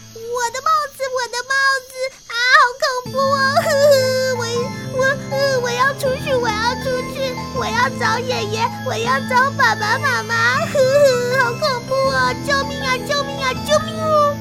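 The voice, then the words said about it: Loud frightened shouting. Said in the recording (Chinese): “小声一点，不要大声叫”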